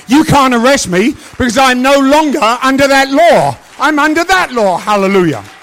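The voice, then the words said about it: English accent. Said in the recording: “Americans like English accents. I'm sorry. They do. So I keep this.”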